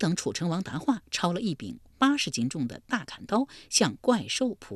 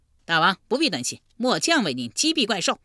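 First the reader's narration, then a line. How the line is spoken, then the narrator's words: Loud. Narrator (Chinese): 车右窦伯大声说道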